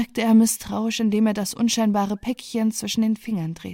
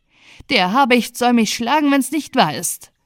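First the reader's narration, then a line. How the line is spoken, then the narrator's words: Called out. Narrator (German): rief Herr Picus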